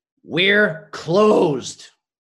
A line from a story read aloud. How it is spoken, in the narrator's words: growled